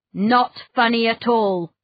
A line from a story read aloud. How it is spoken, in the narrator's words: snapped Mr